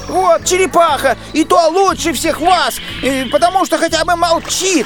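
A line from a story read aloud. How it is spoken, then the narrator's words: Shout. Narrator (Russian): крикнул он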